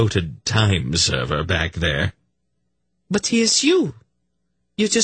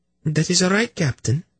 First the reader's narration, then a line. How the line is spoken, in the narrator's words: she replied in a tired little voice